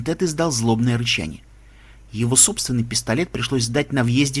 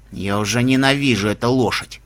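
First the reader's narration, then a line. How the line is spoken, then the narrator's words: Through gritted teeth. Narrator (Russian): процедил Рок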